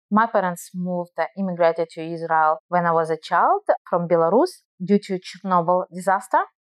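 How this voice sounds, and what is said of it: Russian-accented English. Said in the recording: “you hear my Russian accent”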